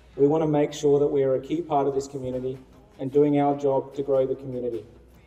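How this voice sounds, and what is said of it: Australian accent. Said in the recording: “you can hear from his accent, Australian”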